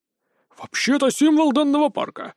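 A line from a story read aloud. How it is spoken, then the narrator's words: Slightly offended answer. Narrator (Russian): слегка обиженно ответил мышкобой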